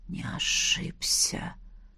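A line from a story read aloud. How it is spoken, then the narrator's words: Stunned whisper. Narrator (Russian): ошарашенно прошептал император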